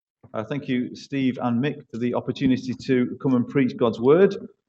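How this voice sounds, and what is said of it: East Manchester English accent. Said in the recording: “you can tell by my accent, I'm not from Somerset ... East Manchester”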